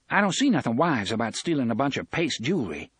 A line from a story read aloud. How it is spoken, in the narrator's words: said sharply